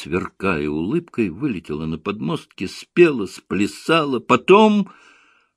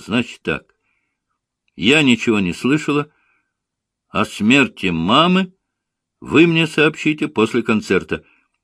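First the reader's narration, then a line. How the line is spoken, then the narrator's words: Loud announcement. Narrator (Russian): Богачева громко возвестила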